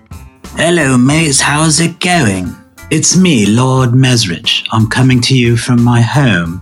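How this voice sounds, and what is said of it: Put-on British accent. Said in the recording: “I'm not actually British ... I've been doing my surgeries with a Brit accent ... it makes me sound smarter”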